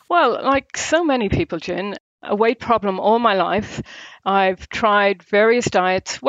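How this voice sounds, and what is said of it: Irish accent. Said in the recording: “hope there's an Irish twang in there ... No, it's definitely an Irish accent.”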